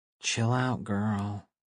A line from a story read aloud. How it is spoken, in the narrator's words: she said under her breath